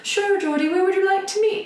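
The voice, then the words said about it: Deliberately bad put-on British accent. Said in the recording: “He was really British, so I'm going to do my really terrible British accent.”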